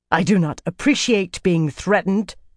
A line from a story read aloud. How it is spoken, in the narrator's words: Shanella said angrily